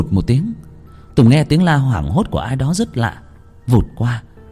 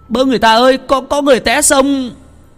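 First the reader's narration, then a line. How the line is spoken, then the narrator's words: Crying out. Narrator (Vietnamese): Tùng la lên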